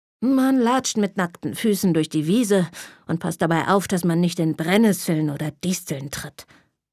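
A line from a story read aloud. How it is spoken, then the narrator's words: Grumpy old man. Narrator (German): antwortete mein Opa brummig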